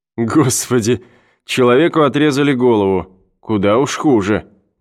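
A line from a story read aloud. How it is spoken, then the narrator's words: Nervous laugh. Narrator (Russian): нервно рассмеялся Брэдли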